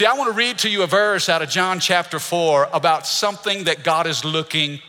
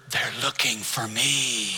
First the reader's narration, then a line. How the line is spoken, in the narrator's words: the boy whispered